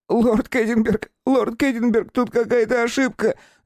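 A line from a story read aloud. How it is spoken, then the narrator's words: Squeaking prisoner. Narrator (Russian): запищал арестант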